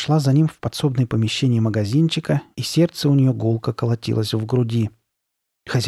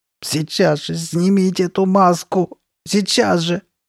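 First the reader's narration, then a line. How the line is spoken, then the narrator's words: Sobbing woman. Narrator (Russian): рыдала она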